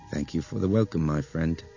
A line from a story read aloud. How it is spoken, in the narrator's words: Nick said softly